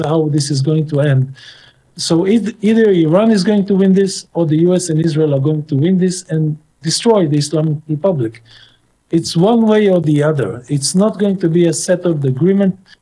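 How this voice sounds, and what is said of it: Middle Eastern accent. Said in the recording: “this person lives over in the Middle East. You can tell from his accent”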